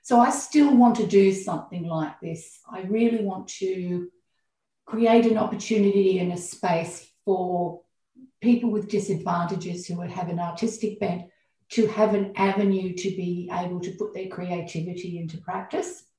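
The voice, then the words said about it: Emotional, choked-up voice. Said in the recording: “You can hear my voice. I'm getting a bit emotional about it.”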